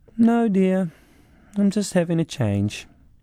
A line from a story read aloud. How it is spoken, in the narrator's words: strangely calm and just replied dreamily